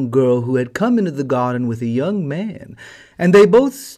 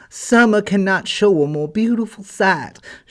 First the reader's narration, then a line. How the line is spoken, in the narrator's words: she exclaimed, while her eyes sparkled